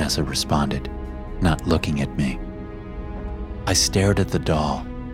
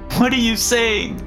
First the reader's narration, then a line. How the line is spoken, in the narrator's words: She wailed